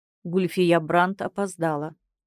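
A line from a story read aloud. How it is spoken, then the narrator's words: Flat emotionless priest's voice. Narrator (Russian): бесчувственным голосом произносит один из жрецов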